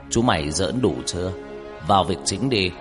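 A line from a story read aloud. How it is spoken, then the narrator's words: Stern loud voice. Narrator (Vietnamese): Ông mười họa lúc này mới nghiêm giọng nói lớn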